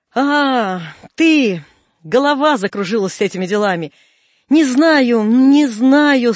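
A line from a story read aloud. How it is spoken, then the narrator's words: Shouted. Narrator (Russian): он крикнул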